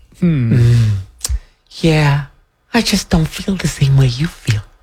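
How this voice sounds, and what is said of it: Imitates another person's voice. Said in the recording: “Was that a good Margaret Brennan impersonation? ... I got to work on that.”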